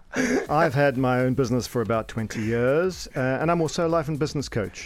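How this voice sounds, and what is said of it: South African Cape Town accent. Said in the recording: “my accent, I hail from sunny Cape Town”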